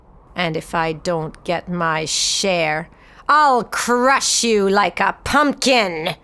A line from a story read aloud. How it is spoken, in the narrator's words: he snarled